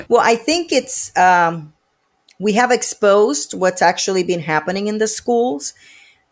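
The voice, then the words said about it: Puerto Rican accent. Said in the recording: “Where are you originally from with your accent? ... Puerto Rico.”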